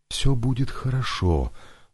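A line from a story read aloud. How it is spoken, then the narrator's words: Quiet. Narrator (Russian): сказала негромко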